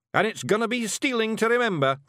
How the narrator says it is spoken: Rob yelled to another cheer

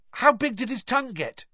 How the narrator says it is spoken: George asked eagerly

